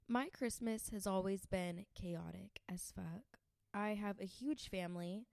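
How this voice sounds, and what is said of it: Sick-sounding voice. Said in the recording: “So my Christmas actually also I'm sick. ... If you can't tell in my voice”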